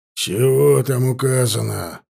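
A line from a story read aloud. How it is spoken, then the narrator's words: Growl. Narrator (Russian): рыкнул Энгельгард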